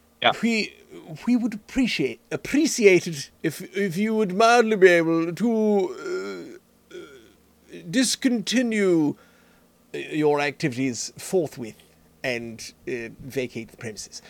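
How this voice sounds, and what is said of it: Posh royal British accent. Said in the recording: “common British accent ... You don't sound royal. You don't go up and say”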